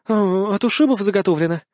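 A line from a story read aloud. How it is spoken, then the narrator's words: Somewhat unsure. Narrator (Russian): выдает несколько неуверенно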